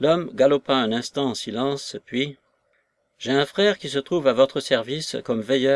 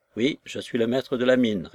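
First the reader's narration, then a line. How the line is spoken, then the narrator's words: Plain. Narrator (French): répondit Charles Gould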